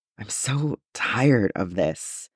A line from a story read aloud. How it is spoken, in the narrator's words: Kenobi whispered